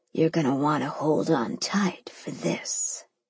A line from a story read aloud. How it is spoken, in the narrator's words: he whispered